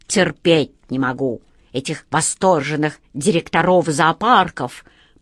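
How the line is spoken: Very quiet mutter. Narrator (Russian): пробормотал он, но так тихо, что это услышал только волшебник Алеша

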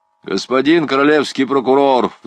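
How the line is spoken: Sudden sharp. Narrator (Russian): вдруг резко сказал Пьера

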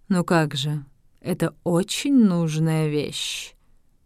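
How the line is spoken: Calm explanation. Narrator (Russian): спокойно объяснил пилот

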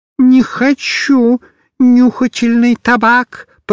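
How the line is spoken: Old man's thin voice. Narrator (Russian): проговорил старичок тонким голосом

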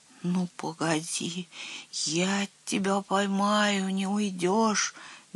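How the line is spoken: Incoherent muttering. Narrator (Russian): бессвязно бормотал

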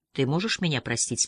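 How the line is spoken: Plain. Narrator (Russian): спросил я

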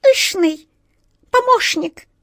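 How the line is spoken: Stern squeak. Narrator (Russian): сурово пропищала желтая мышь

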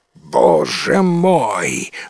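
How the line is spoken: Dragon exclaiming. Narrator (Russian): воскликнул дракон

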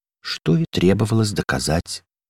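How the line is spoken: Sad echo from a lock. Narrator (Russian): грустно повторил за ней замок

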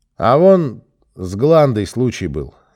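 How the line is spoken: Suddenly loud. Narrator (Russian): неожиданно громко заговорил Серый

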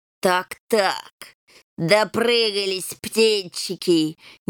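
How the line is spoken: Snide hiss. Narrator (Russian): ехидно прошипел хромой

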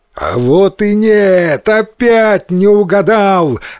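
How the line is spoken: Joyful demon shout. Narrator (Russian): радостно закричал демон

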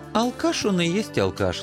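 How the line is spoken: Gentle, smiling. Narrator (Russian): ласково улыбнулся Анцифер

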